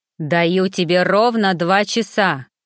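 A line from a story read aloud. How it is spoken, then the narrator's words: Growl into phone. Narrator (Russian): прорычал он в трубку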